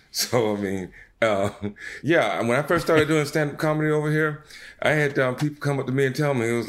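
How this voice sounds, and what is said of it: Southern American accent. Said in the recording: “a southern accent. You're different even from like those fast talking New York comedians.”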